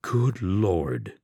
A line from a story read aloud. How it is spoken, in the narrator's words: he murmured